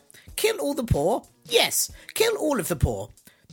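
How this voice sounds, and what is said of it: Impression of the Queen. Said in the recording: “that's my Queen impression.”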